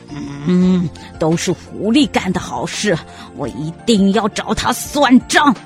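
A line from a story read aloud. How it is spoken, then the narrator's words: Furious, through gritted teeth. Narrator (Chinese): 狼气急了，咬牙切齿地说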